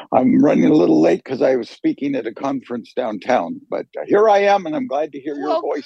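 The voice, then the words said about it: Slightly raspy voice. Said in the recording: “You sound a little raspy, sir. ... That's me being raspy. A little raspy.”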